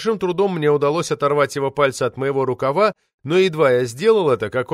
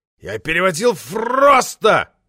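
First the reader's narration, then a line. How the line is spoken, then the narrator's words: Roar. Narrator (Russian): взревел Влад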